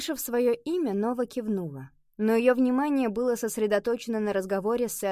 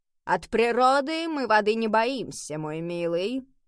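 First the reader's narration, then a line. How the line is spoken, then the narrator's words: Instructive, lecturing tone. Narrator (Russian): поучительным тоном произнес сэр Кормак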